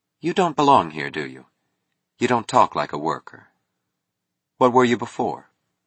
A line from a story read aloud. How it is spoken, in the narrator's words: She was asking calmly